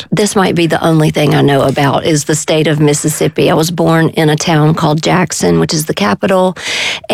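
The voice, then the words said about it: Southern American accent. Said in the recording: “we can probably tell from your accent.”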